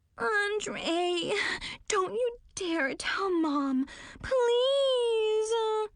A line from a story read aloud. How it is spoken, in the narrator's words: Tiffany whined